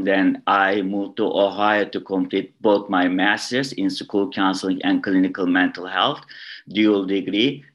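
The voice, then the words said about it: Turkish accent in English. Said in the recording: “my accent is not coming from Chicago area, Chicagoland area. I was born in Istanbul, Turkey.”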